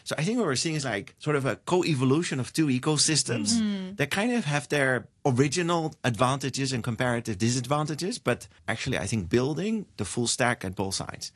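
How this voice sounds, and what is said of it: Dutch accent in English. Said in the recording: “So I'm a European, right? I'm from the Netherlands. ... I'm sure you can hear this from my lovely accent.”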